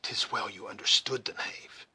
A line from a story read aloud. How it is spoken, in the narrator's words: whispered the scout